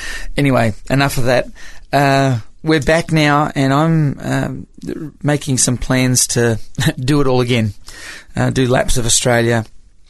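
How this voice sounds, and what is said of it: Australian accent with American tinge. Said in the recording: “I've got a bit more of an American accent than the last time you heard me ... I've always had this kind of weird accent”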